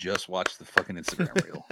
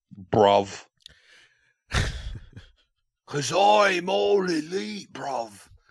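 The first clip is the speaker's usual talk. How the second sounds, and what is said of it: Good put-on English accent. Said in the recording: “That might have been my greatest English accent ever. ... That was very good.”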